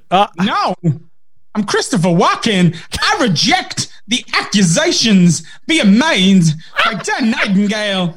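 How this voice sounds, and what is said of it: Christopher Walken impression. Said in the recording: “You're Christopher Walken, which is an impression of other people doing an impression.”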